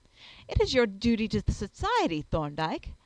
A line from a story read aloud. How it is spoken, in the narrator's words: I exclaimed passionately